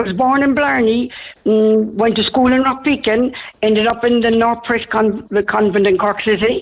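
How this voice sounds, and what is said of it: Irish Cork accent. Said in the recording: “you never lost your Cork accent”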